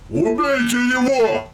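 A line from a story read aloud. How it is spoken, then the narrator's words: Roar. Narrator (Russian): проревел один из золотых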